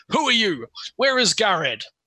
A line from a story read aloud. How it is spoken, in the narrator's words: yells in common